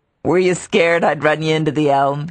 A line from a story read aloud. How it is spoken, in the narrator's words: he asked with a boyish laugh